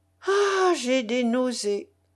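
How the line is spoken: Moaning. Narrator (French): gémissait Tatiana Pavlovna

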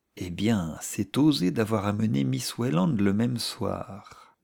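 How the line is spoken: Low voice. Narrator (French): dit quelqu'un à mi-voix

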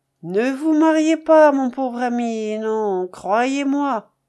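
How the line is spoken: Heavy sigh. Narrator (French): avec un grand soupir

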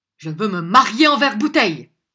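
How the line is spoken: Shouted. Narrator (French): cria Arthur Grid

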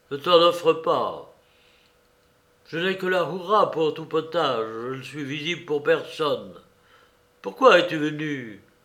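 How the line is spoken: Curt, dry tone. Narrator (French): dit-il d'un ton sec

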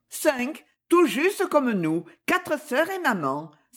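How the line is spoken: Exclaimed, laughing heartily. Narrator (French): s'écria-t-elle, riant 7 fois à belle bouche

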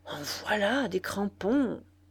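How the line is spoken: Murmured. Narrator (French): murmura-t-elle

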